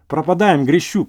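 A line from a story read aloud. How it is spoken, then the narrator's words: Ecstatic, reckless exclamation. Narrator (Russian): воскликнул я, охваченный гибельным восторгом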